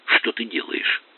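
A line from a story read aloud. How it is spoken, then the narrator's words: Whisper. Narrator (Russian): прошептал Тоби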